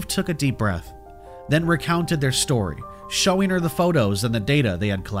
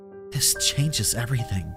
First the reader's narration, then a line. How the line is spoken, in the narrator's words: she murmured